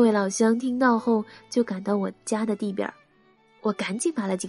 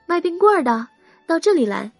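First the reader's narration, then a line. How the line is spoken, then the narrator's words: Shouting. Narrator (Chinese): 我就喊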